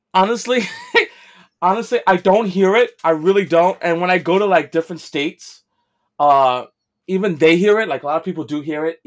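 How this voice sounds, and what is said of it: New York accent. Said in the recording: “Everyone here can hear your accent ... People love the New York accent.”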